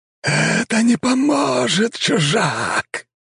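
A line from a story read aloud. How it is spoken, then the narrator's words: Sepulchral drawl. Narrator (Russian): протянуло пространство все тем же замогильным голосом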